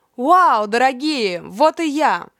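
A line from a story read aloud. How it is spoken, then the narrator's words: Joyful ragged crowd shouting. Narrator (Russian): Все радостно в разнобой закричали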